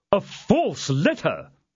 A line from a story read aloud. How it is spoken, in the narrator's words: said Porthos indignantly